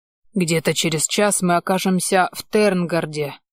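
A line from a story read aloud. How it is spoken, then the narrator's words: Pleased, eager grumble. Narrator (Russian): довольно проворчал мой Бейлиф, явно предвкушая визит к девицам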